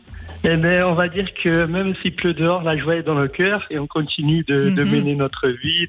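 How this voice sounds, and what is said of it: Lilting regional French accent. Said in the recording (French): “il y a un magnifique accent ... des accents comme ça ... Ça, ça chante. Ça chante ici”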